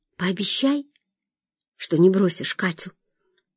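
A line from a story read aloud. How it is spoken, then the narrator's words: Quiet plea. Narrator (Russian): тихо попросила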